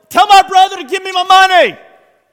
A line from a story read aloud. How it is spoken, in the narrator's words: this guy yells